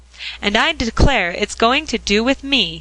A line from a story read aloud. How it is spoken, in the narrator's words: he cried, in delight at the large flat cake